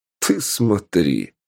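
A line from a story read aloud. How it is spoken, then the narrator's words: Snorting. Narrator (Russian): опять хмыкнул Полос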